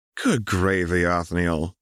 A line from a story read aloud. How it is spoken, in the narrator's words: sighed Anna